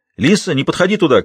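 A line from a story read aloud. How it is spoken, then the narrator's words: Shouted by a man. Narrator (Russian): крикнул герцог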